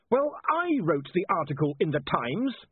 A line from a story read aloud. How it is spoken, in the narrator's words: he snapped